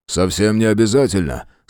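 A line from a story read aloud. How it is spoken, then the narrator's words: Calm objection. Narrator (Russian): спокойно возразил Фрейзер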